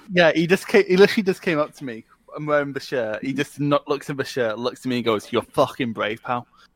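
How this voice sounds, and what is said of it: Scottish accent. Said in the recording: “Everything sounds inherently more scary in a Scottish accent as well. ... I don't get why the English are so fucking scared of the Scottish accent, because you fuckers colonised us.”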